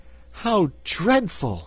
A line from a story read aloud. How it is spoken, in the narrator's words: exclaimed